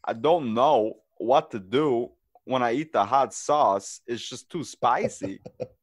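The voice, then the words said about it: Christopher Walken impression. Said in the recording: “my Christopher Walken impression ... That's pretty good.”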